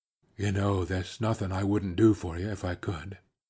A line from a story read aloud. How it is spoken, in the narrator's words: He lowered his voice to say